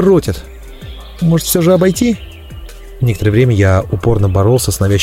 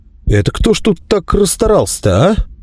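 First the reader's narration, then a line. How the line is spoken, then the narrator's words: Confused question. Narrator (Russian): растерянно поинтересовался я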